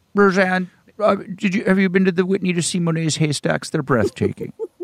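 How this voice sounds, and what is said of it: Impression of Lorne Michaels. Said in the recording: “That's a great impression. ... I don't really do a Lorne.”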